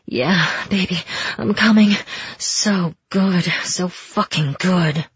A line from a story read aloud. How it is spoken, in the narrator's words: He groaned out, then muttered low